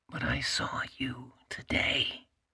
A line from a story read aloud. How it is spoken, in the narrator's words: she whispered